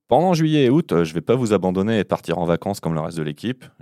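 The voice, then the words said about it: Ardèche regional French accent. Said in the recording (French): “l'accent écossais, je maîtrise moyen, donc vous devrez faire avec mon accent ardéchois”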